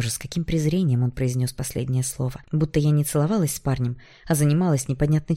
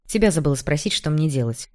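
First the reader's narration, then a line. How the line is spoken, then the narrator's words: Nervous snap. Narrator (Russian): Нервно огрызнулась я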